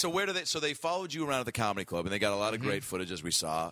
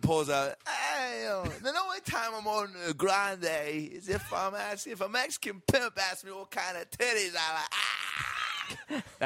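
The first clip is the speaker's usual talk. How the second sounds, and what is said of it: Imitates a comedian's voice. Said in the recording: “that is a perfect impression”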